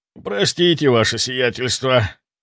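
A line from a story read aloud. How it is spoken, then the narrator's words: Muttered. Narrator (Russian): пробормотал я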